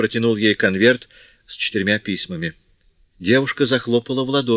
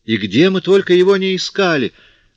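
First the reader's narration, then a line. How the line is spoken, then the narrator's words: Exclaimed. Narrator (Russian): воскликнула она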